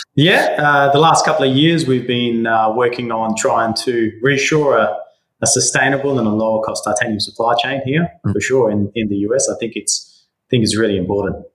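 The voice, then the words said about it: Australian accent with Greek traces. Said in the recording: “you were born in Greece and grew up in Western Australia, which I was trying to dissect from your accent”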